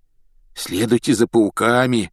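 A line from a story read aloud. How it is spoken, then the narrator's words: Hoarse rasp. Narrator (Russian): прохрипел он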